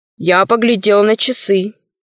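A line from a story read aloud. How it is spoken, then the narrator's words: Gloomy. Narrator (Russian): сообщил мрачно Пашка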